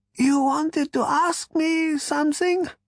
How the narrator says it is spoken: said Prak in a thin voice

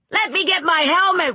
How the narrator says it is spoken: Wayne yelled

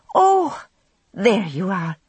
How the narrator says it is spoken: she said, heaving a sigh of relief

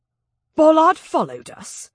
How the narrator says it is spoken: Jack snapped

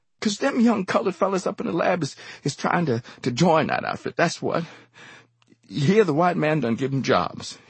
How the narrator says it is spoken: he wheezed as though pleading a case

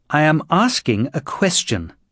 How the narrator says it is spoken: said Garp, raising his voice

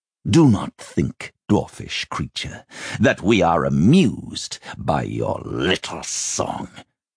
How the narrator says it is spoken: the king snarled

